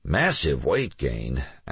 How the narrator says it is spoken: Alex mumbled

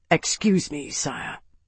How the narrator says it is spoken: murmured

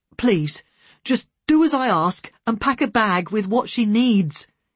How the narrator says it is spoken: nearly begged

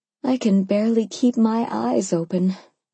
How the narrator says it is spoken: I replied, yawning hugely

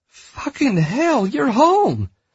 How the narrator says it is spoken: Amelia cried out

